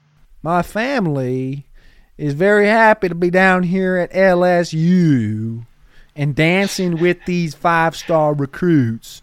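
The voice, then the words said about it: Put-on southern accent. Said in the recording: “getting in a southern accent”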